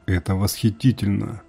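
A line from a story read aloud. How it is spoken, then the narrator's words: Whisper. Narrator (Russian): прошептала она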